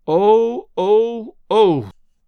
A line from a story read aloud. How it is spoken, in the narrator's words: Nan moaned